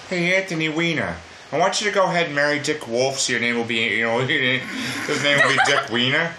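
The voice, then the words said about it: Imitates a cartoon character's voice. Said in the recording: “my best impression”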